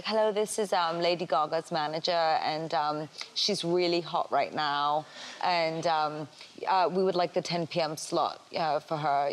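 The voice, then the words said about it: Put-on British, proper-sounding accent. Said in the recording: “that accent was pretty good, unless, you're actually British ... a British or proper-sounding voice”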